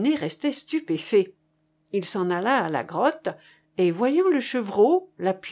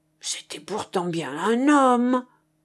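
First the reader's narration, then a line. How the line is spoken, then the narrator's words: Exclaiming. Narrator (French): s'écria-t-il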